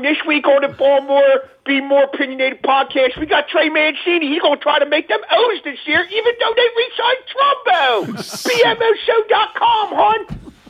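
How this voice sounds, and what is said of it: Put-on Dundalk Baltimore accent. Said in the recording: “I didn't do the accent last week ... When in doubt, go Dundalk?”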